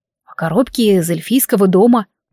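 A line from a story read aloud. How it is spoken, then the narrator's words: Displeased grumble. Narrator (Russian): буркнул недовольно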